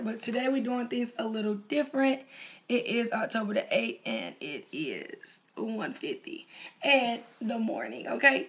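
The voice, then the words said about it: Hoarse, strained voice. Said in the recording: “my voice is crap because I lost my voice”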